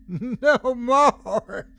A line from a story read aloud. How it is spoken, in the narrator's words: she yelled gleefully